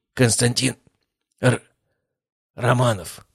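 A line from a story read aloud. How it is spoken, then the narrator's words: Grumbled. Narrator (Russian): пробурчал Владыкин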